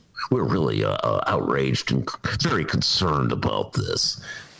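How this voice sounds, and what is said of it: Imitates another person's voice. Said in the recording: “Was that a particular Republican you were impersonating there? ... Yeah, the whole damn party. ... Now, that was Darren Bailey.”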